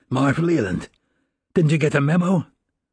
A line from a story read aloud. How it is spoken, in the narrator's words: He choked and coughed and then spoke in a rasping voice